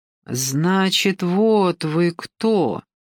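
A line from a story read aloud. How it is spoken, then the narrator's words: Drawling. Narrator (Russian): протянула она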